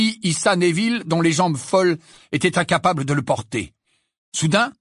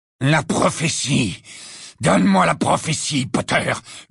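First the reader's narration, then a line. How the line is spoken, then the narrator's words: Growling close to ear. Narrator (French): gronda la voix de Lucius Malfoy à son oreille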